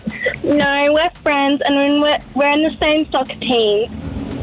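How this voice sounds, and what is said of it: American accent. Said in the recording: “You're American. Bit of an accent there.”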